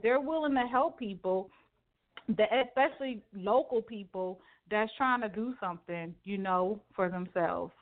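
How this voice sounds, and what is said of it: Raised pitch, passionate voice. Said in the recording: “I get passionate ... my voice is like an octave high”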